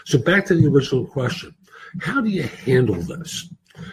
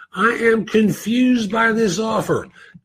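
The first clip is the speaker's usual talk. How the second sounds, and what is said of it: Exaggerated caricature voice. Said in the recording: “I'm doing it in a caricature voice.”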